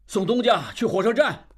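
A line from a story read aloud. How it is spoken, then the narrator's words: Shouting. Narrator (Chinese): 李德龄在喊车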